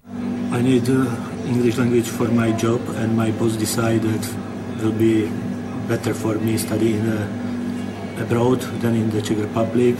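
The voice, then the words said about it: Czech accent in English. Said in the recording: “Number 4 is Czech. And with the description, they say it sounds like Count Dracula, secret agent.”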